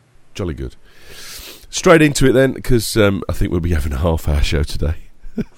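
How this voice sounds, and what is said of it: Congested voice from a cold. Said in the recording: “I've got a bad cold,”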